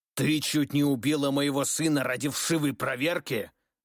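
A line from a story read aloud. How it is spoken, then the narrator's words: Growling. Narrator (Russian): зарычал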